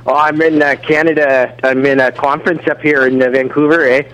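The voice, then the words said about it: Put-on Canadian accent. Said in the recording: “you sound a little different this week. ... you've like developed a little bit of an accent since you've been up there.”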